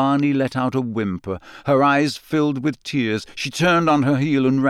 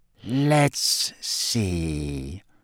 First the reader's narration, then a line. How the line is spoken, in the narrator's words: he said in his silkiest voice